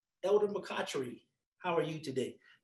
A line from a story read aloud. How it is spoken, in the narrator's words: he responded in a very professional tone and said